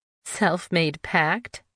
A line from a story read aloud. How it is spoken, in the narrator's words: she asked with a giggle